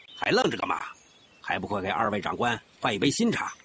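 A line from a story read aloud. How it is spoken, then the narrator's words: Stern command. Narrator (Chinese): 典狱长厉声地吩咐身后的狱警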